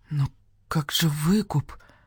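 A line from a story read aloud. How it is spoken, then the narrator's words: Whisper. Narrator (Russian): прошептал барсукот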